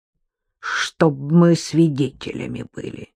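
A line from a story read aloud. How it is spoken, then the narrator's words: Spiteful grimace. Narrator (Russian): злобно сморщилась Липа Сергеевна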